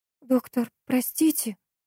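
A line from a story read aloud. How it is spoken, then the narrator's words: Timid, trailing off. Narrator (Russian): робко заговорила и замолчала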